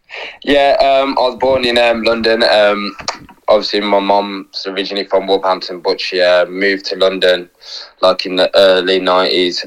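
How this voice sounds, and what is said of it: Local Wolverhampton-sounding English accent. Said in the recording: “I've listened to your accent. I thought you was born locally”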